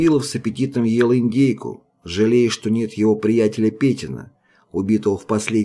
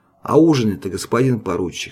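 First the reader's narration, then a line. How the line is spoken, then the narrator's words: Plain. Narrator (Russian): спросил Фома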